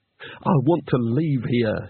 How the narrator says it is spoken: he said urgently

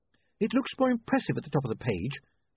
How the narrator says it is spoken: she said nervously

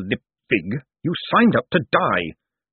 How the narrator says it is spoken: snapped Vetinari, his voice suddenly as cold and deadly as a falling icicle

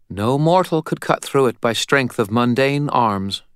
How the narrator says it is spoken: said calmly

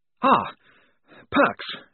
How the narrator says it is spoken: he panted

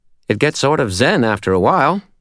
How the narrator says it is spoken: Butters said brightly

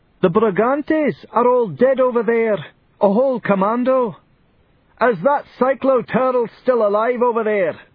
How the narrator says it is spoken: somebody shouted

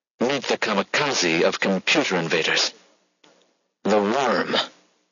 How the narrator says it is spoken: he sighed

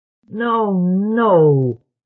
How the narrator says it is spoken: groaned Lamont

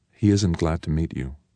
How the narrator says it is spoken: Petra said quietly

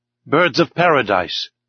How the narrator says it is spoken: exclaimed

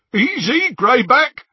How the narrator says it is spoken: said Scabia, over the jeering of the others

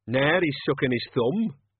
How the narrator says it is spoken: Cat's Eye jeered

